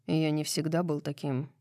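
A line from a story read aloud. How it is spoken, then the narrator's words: Soft voice. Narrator (Russian): мягко произносит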